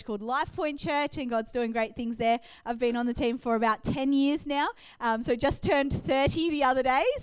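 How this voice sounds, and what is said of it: Australian accent. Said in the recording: “From Australia. ... I know that I have an accent to you”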